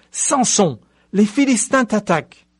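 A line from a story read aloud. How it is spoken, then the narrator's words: Sudden cry. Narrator (French): Tout à coup, elle s'écria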